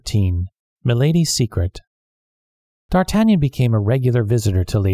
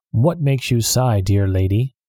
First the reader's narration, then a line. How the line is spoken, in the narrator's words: D'Artagnan asked